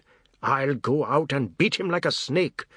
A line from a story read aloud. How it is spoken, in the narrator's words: Pratap said, his voice rising out of control